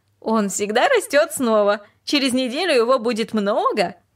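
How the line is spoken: Laughing. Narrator (Russian): она только рассмеялась и сказала

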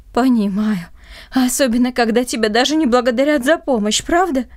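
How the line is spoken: Heavy sigh. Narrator (Russian): тяжело вздохнул

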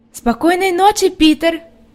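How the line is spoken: Shouted. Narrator (Russian): крикнула Хайди, заметив, что он не собирается подходить

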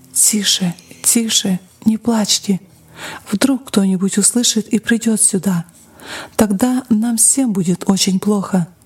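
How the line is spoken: Mother's frightened whisper. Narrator (Russian): Мать испуганно шептала детям

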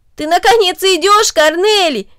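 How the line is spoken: Exclamation. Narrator (Russian): воскликнул Дино

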